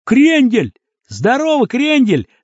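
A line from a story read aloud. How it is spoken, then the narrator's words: Yell. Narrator (Russian): заорал какой-то парень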